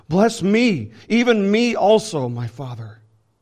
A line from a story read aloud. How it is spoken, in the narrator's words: As soon as Esau heard the words of his father, he cried out with an exceedingly great and bitter cry and said to his father